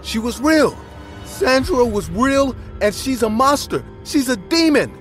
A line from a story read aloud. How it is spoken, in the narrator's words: screaming the words